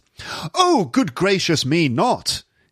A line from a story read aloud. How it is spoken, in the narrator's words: cried